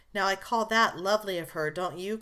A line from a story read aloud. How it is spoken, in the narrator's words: cried one girl